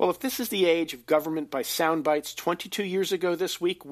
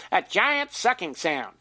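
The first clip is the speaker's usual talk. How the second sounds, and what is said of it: Imitates another person's voice. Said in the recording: “here's my best Ross Perot imitation”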